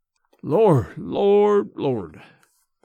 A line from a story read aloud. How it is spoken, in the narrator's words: he muttered